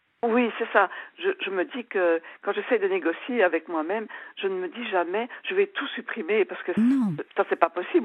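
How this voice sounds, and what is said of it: Slight Belgian French accent. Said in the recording (French): “votre petit accent me fait penser que chez vous, il y a des bons chocolats ... chocolats belges”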